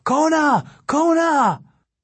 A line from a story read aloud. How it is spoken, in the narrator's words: shouting